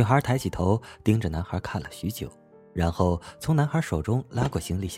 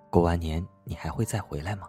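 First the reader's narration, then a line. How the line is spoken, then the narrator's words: Soft question. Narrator (Chinese): 男孩轻声的问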